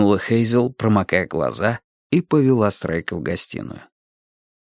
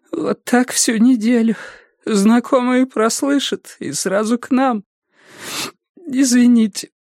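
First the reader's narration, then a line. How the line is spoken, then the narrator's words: Sobbing. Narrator (Russian): всхлипнула она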